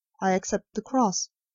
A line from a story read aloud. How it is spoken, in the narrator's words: a white-faced man who calmly said